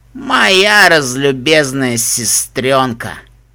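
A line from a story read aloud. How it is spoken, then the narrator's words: Snorting, scornful. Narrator (Russian): фыркнул Аллан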